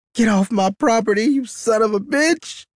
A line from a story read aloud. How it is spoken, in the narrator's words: she screams